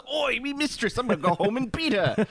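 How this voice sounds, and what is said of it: Imperfect put-on Cockney accent. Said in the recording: “My Cockney accent is not all that it's cracked up to be.”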